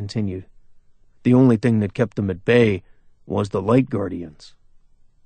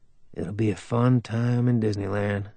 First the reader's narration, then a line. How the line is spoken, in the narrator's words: Jess mumbled